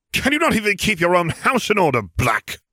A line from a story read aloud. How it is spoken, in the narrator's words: he spat